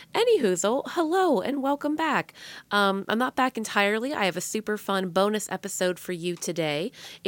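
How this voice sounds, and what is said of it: Hoarse, cracking, partly lost voice. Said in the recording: “My voice keeps cracking... I was hooting and hollering... I kind of lost my voice.”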